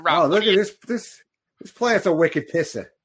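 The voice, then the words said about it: Put-on Boston accent. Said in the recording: “with a Boston accent”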